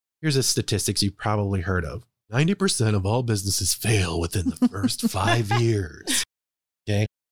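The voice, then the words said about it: Polished radio announcer voice. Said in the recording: “That's his radio voice.”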